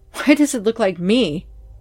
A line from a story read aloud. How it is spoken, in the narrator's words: he exclaimed fearsomely